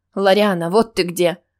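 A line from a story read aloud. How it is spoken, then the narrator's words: Brisk but frightened-sounding. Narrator (Russian): бодрый, но показавшийся мне испуганным голос наставницы Теа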